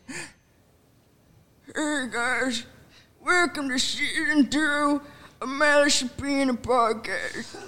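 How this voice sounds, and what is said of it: Put-on crackhead voice. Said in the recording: “I guess I could do, like a crackhead voice.”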